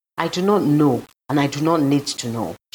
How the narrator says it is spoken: she answered

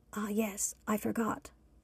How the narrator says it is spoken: Trevon whispered back

